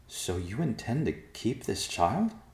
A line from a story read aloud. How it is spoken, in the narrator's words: Goldenheart asked, her voice conveying her disbelief